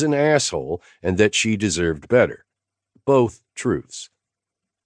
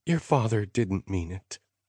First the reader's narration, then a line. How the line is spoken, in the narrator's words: Mom said in her whisper of a voice